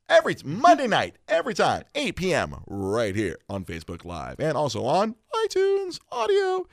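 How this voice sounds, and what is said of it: Deep bass radio voice. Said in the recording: “awesome radio voice with the deep, deep bass”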